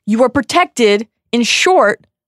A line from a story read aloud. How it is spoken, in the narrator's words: Dumbledore shouts back